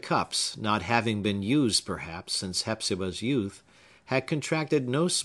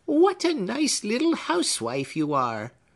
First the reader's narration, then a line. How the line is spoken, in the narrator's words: exclaimed the latter, smiling, and at the same time frowning so prodigiously that the smile was sunshine under a thundercloud